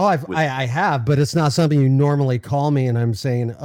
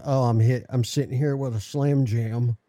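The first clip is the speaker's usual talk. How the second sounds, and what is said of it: Put-on Southern accent. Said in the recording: “why does it gotta be a southern accent again?”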